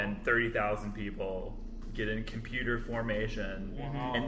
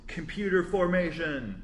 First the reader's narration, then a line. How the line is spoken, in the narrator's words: he just yells